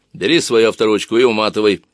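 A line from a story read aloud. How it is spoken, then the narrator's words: Grumbling. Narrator (Russian): проворчала Самбу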